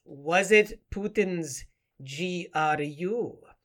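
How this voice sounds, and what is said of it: Bad put-on Russian accent. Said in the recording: “that's a dreadful Russian accent”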